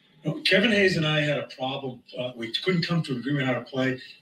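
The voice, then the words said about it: Strong regional accent, fired up. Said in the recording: “You can hear that main accent coming out when Torts gets fired up.”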